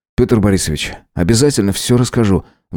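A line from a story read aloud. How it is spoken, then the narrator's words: Sighing. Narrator (Russian): вздохнул я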